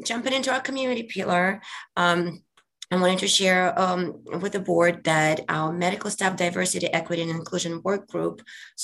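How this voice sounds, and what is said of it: Slightly hoarse voice. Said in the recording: “I'm a bit hoarse today”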